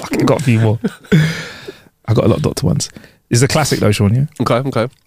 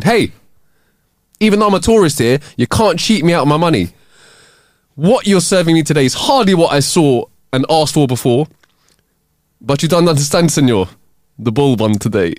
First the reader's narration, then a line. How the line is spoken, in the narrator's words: Angrily, he called the waiter and complained